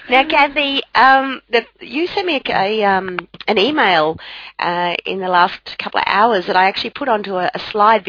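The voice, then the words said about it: Hoarse, raspy voice. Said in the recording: “I hope you get your voice back before this weekend. ... Otherwise, I'm going to sound like a brothel madam.”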